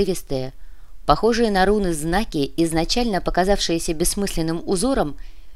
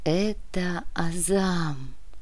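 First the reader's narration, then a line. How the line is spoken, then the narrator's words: Whisper. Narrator (Russian): прошептала Вероника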